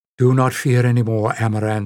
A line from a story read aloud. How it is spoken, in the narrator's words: said Shan quickly